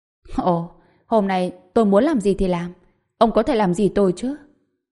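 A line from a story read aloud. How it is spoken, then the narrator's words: Laughing loudly, cold. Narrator (Vietnamese): Trần Bình cười lớn, ánh mắt lạnh lùng, nói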